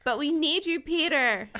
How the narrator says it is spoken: I pleaded

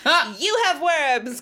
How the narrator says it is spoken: Kris exclaimed

